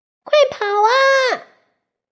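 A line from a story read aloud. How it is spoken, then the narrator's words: Loud shout. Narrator (Chinese): 小鱼 大声叫道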